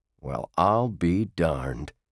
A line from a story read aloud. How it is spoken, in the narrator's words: he muttered